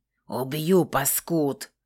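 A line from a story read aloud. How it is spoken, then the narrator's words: Furious hiss. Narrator (Russian): зашипел взбешенный змеюка Зенски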